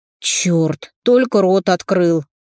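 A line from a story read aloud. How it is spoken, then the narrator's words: Groan. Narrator (Russian): простонал Иван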